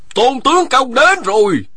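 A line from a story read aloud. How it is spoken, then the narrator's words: Someone shouting. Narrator (Vietnamese): một người la lên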